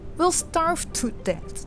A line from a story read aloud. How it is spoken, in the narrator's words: young Hansel cried